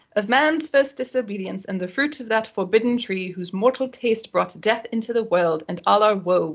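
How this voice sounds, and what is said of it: Put-on British accent. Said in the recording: “try it again with your best British accent”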